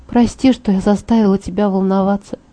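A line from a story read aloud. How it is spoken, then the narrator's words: Quiet. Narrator (Russian): тихо произнесла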